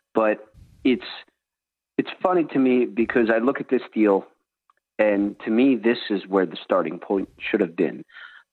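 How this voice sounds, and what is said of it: Philadelphia-area accent. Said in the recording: “I'm from the Philadelphia area, as you can hear from my terrible accent.”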